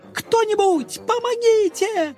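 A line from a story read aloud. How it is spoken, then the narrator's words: Real, genuine scream. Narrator (Russian): уже по-настоящему закричала Лапочка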